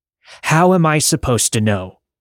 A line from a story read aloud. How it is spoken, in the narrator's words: John … yelled